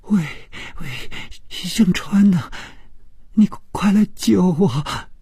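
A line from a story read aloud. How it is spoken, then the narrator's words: Sobbing, terrified. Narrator (Chinese): 这声音充满了哭泣，并且非常的恐惧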